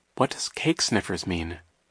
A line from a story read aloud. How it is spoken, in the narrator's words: Violet murmured to Klaus